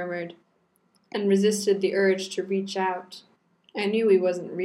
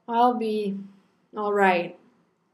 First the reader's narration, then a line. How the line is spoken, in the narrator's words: I sighed and grinned despite myself